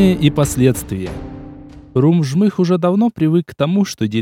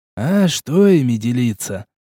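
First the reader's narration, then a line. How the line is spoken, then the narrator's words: Heavy sigh. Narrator (Russian): тяжело вздохнул Шичерун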